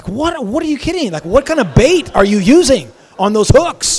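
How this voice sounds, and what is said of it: Usual voice. Nothing is said of it.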